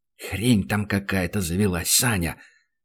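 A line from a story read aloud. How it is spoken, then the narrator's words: Whispered reply. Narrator (Russian): Так же шепотом ответил Данил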